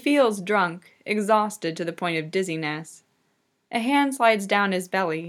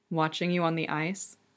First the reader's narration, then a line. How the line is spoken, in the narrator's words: Victor murmurs